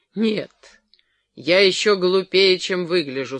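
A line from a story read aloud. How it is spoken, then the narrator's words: Gloomy. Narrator (Russian): сказал Джерри мрачно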